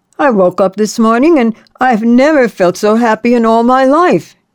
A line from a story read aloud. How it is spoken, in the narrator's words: he cried out